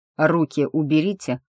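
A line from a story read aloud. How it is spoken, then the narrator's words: Gloomy. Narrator (Russian): посоветовал он мрачно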